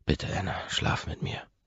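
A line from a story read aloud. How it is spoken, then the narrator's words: Breathy whisper. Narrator (German): hauche ich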